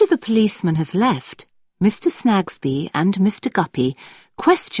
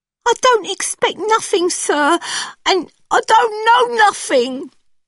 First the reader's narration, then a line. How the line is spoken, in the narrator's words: cries Joe